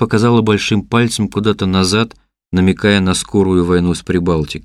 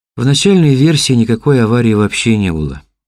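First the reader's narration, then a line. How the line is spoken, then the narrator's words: Sad. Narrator (Russian): грустно сказала Ксения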